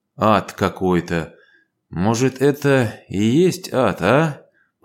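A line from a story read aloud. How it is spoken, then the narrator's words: Muttering. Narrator (Russian): пробормотал он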